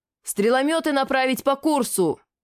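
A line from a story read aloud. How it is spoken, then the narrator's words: Yelling. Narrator (Russian): заорал я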